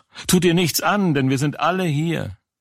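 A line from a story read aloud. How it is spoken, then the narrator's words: Loud call. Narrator (German): Paulus aber rief laut und sprach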